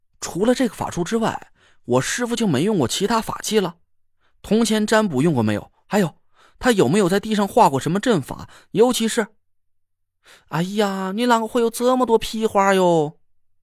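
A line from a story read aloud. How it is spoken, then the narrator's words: Impatient interruption. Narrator (Chinese): 李金花显然不耐烦了起来，她打断了我的话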